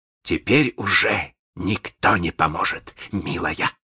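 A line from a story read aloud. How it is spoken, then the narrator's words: Gloating hiss. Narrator (Russian): злорадно прошипел Малинс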